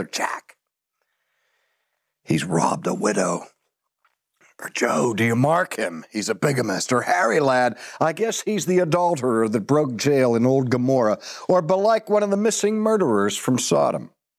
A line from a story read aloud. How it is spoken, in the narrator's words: In their gamesome but still serious way, one whispers